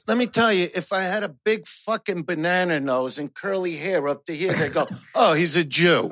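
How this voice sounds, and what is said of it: Brooklyn accent. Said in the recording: “I have a Brooklyn accent.”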